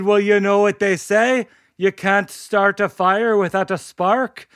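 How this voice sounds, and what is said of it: Put-on Irish accent. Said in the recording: “I'll stop doing this accent ... classic Irish story”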